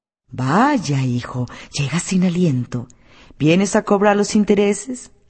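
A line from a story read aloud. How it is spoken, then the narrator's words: Judge exclaiming. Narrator (Spanish): el juez se exclamó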